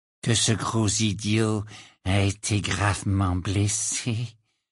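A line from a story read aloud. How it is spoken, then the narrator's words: Low voice. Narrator (French): dit-il à voix basse pour que seul Harry puisse l'entendre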